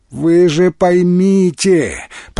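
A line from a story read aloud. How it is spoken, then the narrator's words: Near moan. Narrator (Russian): почти простонал Феликс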